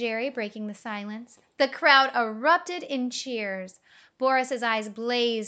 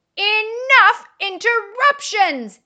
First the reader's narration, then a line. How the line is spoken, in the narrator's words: he roared, desperate to regain control